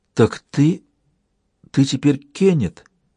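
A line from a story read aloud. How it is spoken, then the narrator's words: Sighing, choked voice. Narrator (Russian): Это вздохнула и спросила совсем уже задушенным голосом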